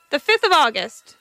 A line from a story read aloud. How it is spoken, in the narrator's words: she said impatiently